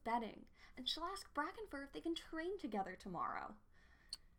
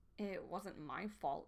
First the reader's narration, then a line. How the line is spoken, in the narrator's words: she muttered